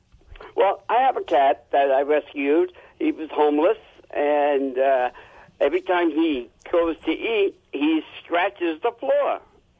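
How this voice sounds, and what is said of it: New Jersey accent. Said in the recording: “I could tell from your accent that you're a Jersey boy.”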